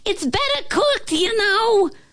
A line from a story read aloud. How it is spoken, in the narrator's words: she yelled